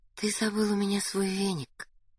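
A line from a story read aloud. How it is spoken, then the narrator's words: Tender. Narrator (Russian): нежно сообщила Надя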